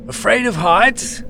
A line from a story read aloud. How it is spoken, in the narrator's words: he yelled, over the rain